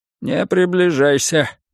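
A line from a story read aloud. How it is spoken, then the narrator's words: Old man muttering. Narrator (Russian): бормотал старик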